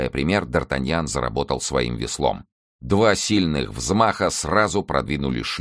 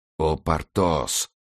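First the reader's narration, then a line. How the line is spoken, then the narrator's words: Pleading voice. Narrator (Russian): умоляющим голосом произнес граф де ля Фер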